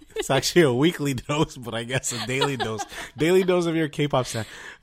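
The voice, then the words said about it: Hoarse, partly lost voice. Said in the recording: “my voice is... I lost my voice. ... it's still almost there”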